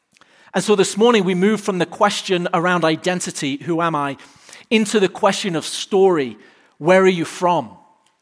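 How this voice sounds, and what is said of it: English accent. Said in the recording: “My accent is not subtle... most people guess Australia... it sounds vaguely familiar... no, I'm from England”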